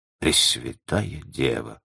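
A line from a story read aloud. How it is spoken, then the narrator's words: Muttering. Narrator (Russian): пробормотал Грингуар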